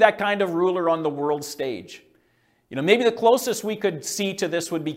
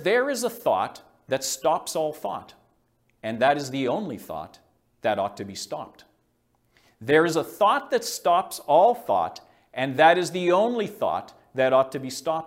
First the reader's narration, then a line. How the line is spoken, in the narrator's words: he says